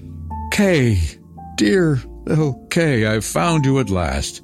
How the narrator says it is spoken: she exclaimed

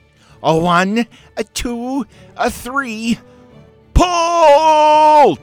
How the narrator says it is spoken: shouted

